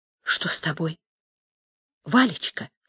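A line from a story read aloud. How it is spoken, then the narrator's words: Quiet question. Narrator (Russian): тихо спросила Уля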